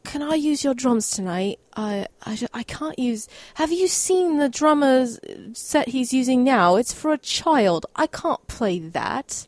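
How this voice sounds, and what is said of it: Put-on British accent. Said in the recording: “I'm sorry for my British accent”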